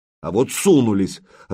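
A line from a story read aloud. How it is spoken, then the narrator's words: Irritated speech. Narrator (Russian): раздраженно проговорил Владимир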